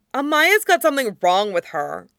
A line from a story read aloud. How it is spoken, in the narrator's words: Katara snapped